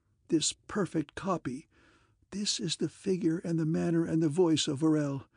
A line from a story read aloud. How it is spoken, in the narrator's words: he choked